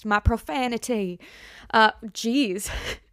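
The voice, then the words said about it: Brief put-on unidentified accent. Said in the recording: “I don't know what kind of accent that was”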